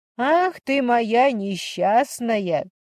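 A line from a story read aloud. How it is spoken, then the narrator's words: Laughing. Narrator (Russian): засмеялась Инна Борисовна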